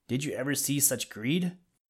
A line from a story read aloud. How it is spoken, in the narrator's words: gasped Billy Mink